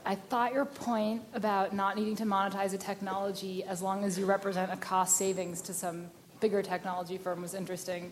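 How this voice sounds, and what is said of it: Hoarse, strained voice. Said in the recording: “I'm losing my voice a little today.”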